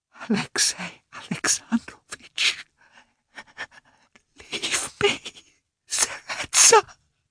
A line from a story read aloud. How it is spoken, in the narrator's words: whispered again